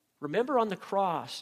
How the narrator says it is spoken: Jesus cried out

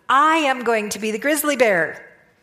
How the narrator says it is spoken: he spoke loudly

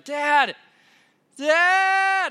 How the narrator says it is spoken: Honora yelling from the other room

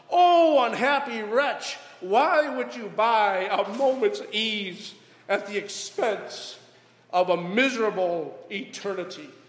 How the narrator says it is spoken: she exclaimed

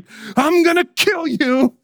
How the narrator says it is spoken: the shriek

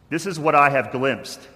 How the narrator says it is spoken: said

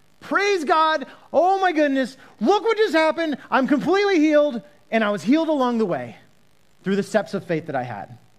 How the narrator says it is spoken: he's yelling out

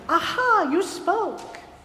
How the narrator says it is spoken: the young tailor exclaimed

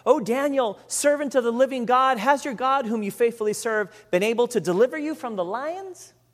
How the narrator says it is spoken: he cried out anxiously to Daniel

